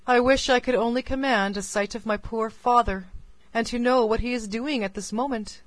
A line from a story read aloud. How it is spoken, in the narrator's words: said she, sighing